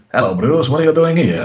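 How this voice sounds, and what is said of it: Impression of Captain Bertorelli, Italian accent. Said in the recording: “his finest impression of Captain Bertorelli from Allo Allo”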